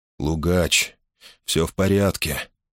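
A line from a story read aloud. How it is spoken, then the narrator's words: Gentle, affectionate. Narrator (Russian): ласково проговорил он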